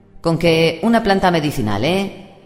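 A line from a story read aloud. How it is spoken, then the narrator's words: Skeptical tone. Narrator (Spanish): dijo Nate en tono escéptico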